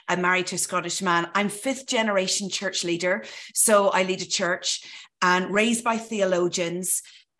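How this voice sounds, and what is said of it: Irish accent. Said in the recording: “This is an Irish accent”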